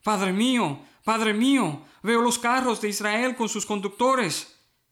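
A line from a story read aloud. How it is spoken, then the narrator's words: Exclamation. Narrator (Spanish): Eliseo exclamó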